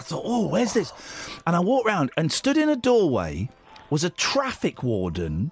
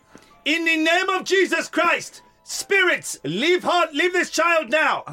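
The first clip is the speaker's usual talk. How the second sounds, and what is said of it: Shouted imitation of thick African accent. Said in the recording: “he had a very thick African accent ... But you weren't going to do the accent ... shouting”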